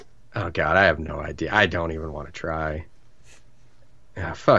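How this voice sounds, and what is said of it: Usual voice. Nothing is said of it.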